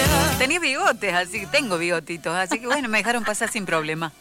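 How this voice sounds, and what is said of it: Usual voice. Nothing is said of it.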